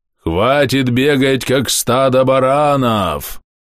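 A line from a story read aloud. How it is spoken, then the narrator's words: Loud menacing shout. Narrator (Russian): Прозвучало так громко и грозно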